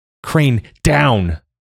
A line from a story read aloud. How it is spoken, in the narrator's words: Joa bellowed